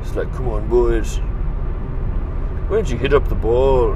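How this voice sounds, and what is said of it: Poor attempt at Scottish accent. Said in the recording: “I just can't do a good Scottish accent”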